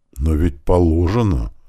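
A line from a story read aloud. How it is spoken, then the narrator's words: Confused defensive mutter. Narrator (Russian): как-то растерянно пробормотал он, как бы оправдываясь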